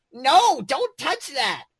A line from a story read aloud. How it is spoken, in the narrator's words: He shrieked